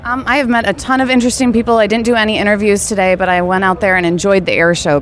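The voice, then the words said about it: Out of breath, breathless speech. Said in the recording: “that's why I'm out of breath, because I ran over here in the hot sun”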